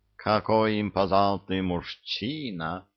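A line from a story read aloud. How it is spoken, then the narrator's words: Purring young woman. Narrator (Russian): промурлыкала девица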